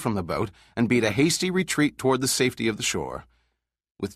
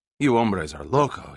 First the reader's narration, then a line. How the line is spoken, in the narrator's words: grunted with a heavy Spanish accent